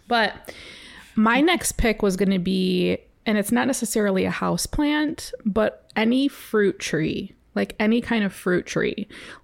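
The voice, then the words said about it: Slightly crackly voice. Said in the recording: “I had a tickle in my throat, so my voice might sound a little crackly”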